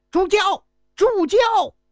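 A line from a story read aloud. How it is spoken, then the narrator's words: Hurried loud shout. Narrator (Chinese): 周景龙…紧忙大喊一声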